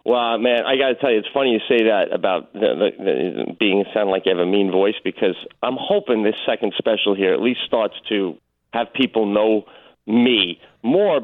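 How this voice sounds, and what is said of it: New York accent. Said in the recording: “You still have a good. It's not obnoxious in New York, like where you're like, this guy's gonna be a douchebag just because of the way he talks. It's kind of like a familiar. It's a good storytelling voice.”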